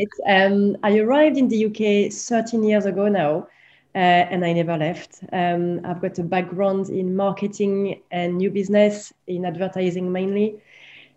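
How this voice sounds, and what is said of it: Strong French accent. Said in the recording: “I am French. I have a very strong accent.”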